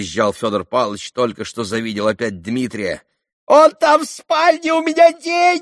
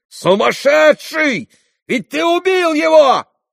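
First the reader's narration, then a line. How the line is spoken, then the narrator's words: Shouting. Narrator (Russian): крикнул Иван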